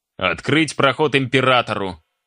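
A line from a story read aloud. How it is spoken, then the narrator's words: Shouted. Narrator (Russian): крикнул кто-то из дежурных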